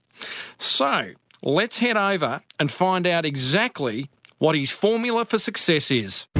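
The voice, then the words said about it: Exaggerated nerdy voice. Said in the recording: “Worst nerd voice ever.”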